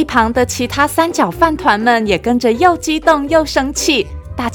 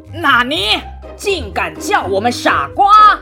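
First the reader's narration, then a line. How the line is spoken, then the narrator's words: Displeased roar. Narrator (Chinese): 三角饭团将军不满意的大吼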